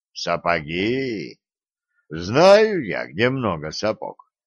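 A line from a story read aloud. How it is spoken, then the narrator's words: Drawling while chewing straw. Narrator (Russian): протянул Глеб, пожевывая соломинку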